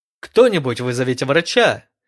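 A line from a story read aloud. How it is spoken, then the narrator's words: Urgent shout. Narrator (Russian): крикнул один из сержантов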